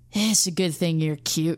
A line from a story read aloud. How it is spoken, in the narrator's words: the human sighed